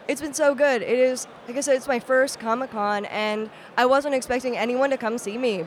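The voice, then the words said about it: Worn-out, husky, deep voice. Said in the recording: “My voice is completely shot because it is the last day of Comic Con ... that husky Barry White-ness about you”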